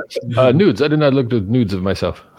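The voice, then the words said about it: Put-on French accent. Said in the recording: “My French accent.”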